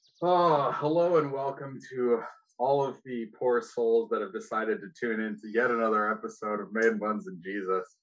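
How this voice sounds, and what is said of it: Defeated, weary-sounding delivery. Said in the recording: “You sound so defeated already.”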